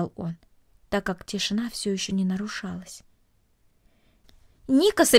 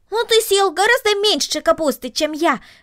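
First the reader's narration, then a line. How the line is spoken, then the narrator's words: Exclamation. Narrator (Russian): воскликнул Макс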